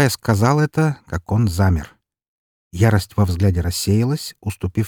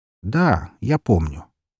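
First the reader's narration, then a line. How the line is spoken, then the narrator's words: Very calm, placating. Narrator (Russian): максимально спокойным голосом произнес, стараясь лишний раз его не провоцировать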